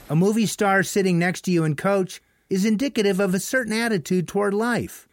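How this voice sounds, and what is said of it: Monotone New Zealand accent. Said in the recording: “He's from New Zealand. ... kind of talks in a monotone, sounds like a robot. ... that's the New Zealand accent.”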